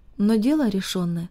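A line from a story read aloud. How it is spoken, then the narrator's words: Very serious, to himself. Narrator (Russian): сказал себе Харт очень серьезным тоном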